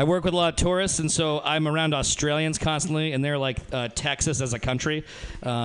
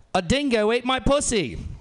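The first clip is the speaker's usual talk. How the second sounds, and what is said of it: Put-on Australian woman's accent. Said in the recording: “I'm pretty good, beginning good at Australian impressions ... my impression of an Australian woman”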